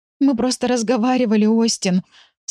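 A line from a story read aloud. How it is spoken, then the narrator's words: Sobbing girl. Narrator (Russian): всхлипывая, плакала девушка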